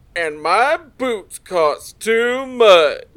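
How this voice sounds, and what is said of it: Bad impression of another person's voice. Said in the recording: “in a bad impression of the guy on the tape”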